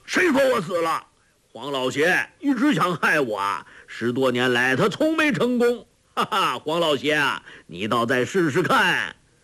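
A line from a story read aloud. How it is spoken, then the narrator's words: Angry. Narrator (Chinese): 周伯通怒道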